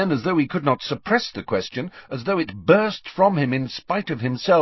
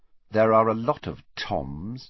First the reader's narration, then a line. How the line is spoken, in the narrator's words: muttered Riddle